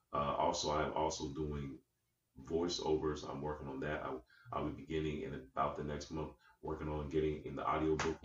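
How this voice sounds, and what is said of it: Deep voice. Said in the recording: “y'all hear the deep voice. Y'all hear it. That's voiceover material.”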